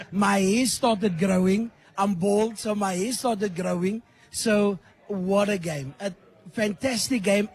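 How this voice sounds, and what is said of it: Hoarse, nearly lost voice. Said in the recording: “as you can hear, I lost my voice ... My voice is gone”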